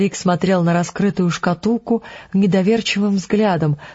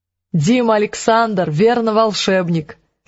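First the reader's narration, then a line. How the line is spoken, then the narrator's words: Laughing. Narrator (Russian): засмеялась Мэг Ранш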